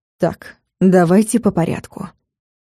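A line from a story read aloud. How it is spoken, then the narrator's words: Cold commanding interruption. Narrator (Russian): перебил Влад все тем же непривычно холодным командным тоном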